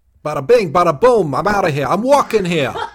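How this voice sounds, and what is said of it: Weak put-on New Jersey accent. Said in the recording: “use a Jersey accent, and my Jersey accent is not good ... What is your Jersey accent?”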